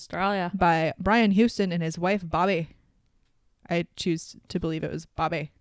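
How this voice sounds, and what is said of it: Put-on accent, called flawless. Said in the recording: “Flawless accent.”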